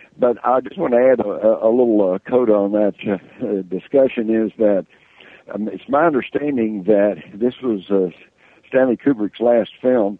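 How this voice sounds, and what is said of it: Slurry Texas accent. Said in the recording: “my slurry Texas accent”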